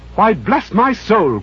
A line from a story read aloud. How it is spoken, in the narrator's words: cried